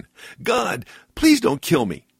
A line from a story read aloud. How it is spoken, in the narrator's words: he cried out again